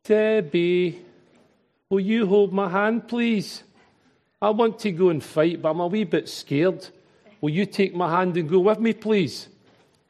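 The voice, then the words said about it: Glaswegian Scottish accent. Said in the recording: “my Glaswegian accent”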